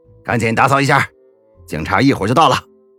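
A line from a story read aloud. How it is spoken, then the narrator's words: Loud shout. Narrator (Chinese): 虎爷高喊一声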